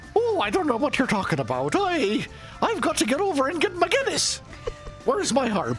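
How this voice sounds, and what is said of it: Put-on Irish accent. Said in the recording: “I would love to hear your guys' Irish accent”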